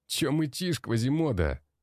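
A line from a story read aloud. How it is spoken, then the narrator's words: Mocking laughter, young man. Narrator (Russian): смеялся дорого одетый молодой блондин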